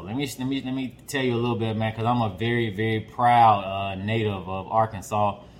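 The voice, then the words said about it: Southern Arkansas twang. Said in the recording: “I'm from Arkansas. So, y'all might hear a little twang here and there.”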